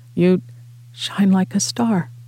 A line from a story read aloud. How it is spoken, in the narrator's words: Alex whispered